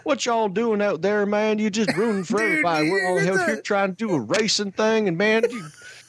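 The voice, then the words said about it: Southern accent with Canadian tinge. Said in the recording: “the guy was actually quite Southern... Your Southern accent sounds so Canadian... it was good, but you'd hear this oot thing still”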